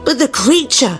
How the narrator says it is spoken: cried Marcus

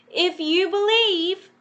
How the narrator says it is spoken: Peter shouted

